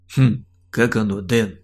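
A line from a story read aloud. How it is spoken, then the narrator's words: Gloating smirk. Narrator (Russian): Злорадно хмыкнул он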